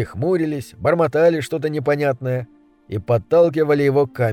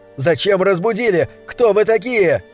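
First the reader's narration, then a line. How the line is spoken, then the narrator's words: Shouting angrily. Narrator (Russian): он кричал на них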